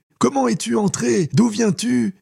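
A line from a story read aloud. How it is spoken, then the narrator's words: Mother calling from kitchen. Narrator (French): s'écria sa mère depuis la cuisine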